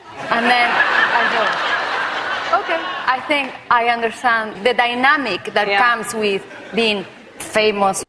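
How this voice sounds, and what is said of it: Strong accent. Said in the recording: “Strong accent.”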